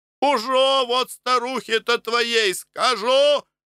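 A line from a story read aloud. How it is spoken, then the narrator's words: Shouting after someone. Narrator (Russian): кричала ему вслед Аннушка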